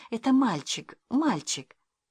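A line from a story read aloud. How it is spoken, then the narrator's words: Whispering mother. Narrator (Russian): мама стала ему шептать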